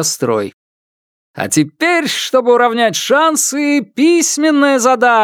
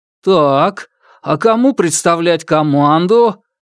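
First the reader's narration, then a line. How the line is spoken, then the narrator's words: Uncertain voice. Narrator (Russian): Голос Валиева звучал неуверенно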